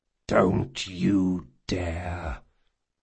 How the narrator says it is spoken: growled Jean

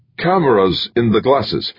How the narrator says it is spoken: he stammered

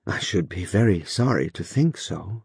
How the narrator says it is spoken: answered Phoebe gravely

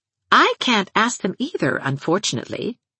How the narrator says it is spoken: said Anne

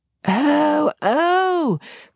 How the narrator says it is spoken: cried Mrs

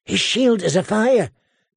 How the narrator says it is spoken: Gendry said in a hushed voice

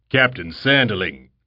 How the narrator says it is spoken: he boomed, his voice deep and resonant, the sound of it strangely compelling, like that of a practiced orator

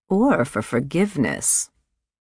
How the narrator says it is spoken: said Aunt Quinlan dryly

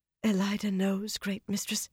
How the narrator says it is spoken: she breathed

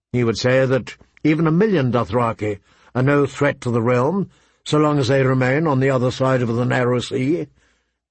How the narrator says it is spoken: Ned replied calmly

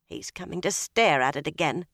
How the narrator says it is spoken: she muttered

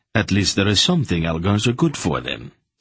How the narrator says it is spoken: Silk said dryly

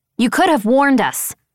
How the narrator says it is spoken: I snapped

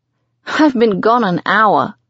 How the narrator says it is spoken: I laugh

